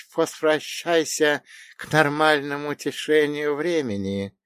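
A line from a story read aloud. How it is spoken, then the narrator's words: Hissing snake. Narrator (Russian): прошипела змеюка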